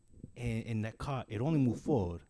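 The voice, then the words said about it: Weak attempt at Latino accent. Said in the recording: “your Latin friend ... I can't do the accent very well”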